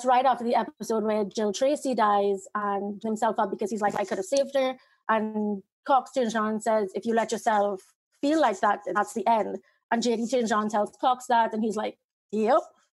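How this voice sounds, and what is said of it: Speaks with a noticeable accent. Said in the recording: “I really love your accent. It's amazing.”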